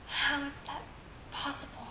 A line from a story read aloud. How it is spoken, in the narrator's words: He asked quietly